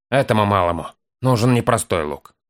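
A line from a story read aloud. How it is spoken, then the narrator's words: Sudden grumble. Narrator (Russian): буркнул вдруг хозяин, не поднимая головы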